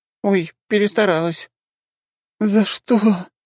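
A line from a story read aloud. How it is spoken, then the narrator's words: Redhead moaning. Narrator (Russian): простонала рыжая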